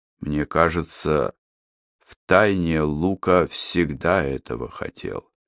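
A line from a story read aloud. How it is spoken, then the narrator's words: Steady old man's voice. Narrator (Russian): по-прежнему ровным голосом произнес старик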